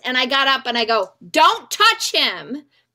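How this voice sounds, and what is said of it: Shouting loudly. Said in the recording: “Oh, sorry, I'm screaming.”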